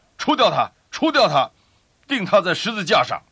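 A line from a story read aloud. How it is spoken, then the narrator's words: Group shouting. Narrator (Chinese): 他们喊着说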